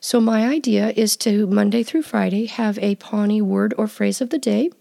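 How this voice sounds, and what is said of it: Voice strained from a cold. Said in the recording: “apologize for my voice. I am coming off of a cold, and I promise that I will sound better tomorrow”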